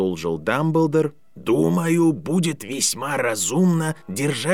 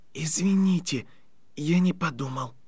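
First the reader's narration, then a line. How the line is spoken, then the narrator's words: Whispered. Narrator (Russian): прошептал Гарри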